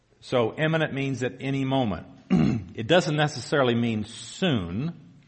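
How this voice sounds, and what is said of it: Southern US accent. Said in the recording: “You can probably tell by my accent I'm from the south.”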